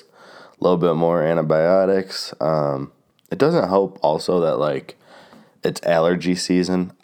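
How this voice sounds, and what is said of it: Congested, stuffy-nosed sick voice. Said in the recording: “I am still kind of getting over my sickness. I guess you can tell in my voice... my nose is still so stuffy”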